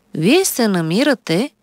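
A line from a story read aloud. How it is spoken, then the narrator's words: Calm doctor speaking. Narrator (Bulgarian): спокойно заговори лекаря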